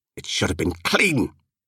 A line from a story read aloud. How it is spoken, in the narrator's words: snapped